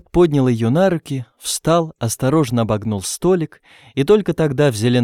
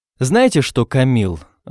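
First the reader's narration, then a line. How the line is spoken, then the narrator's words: Irritated. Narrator (Russian): раздраженно начал Роберт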